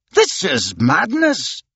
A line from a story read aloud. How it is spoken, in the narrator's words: exclaimed Andrew Stuart, who was beginning to get annoyed